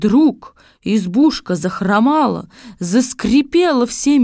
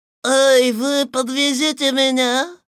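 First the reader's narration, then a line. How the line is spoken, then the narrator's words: Thin creaky voice. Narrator (Russian): сказала фигура тонким скрипучим голосом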